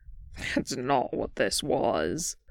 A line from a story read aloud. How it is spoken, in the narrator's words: Boston sneered